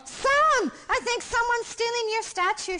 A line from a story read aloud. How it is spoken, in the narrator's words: shouted Tom